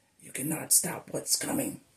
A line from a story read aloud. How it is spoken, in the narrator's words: hissed